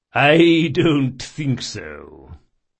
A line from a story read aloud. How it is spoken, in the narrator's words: said Chains, chuckling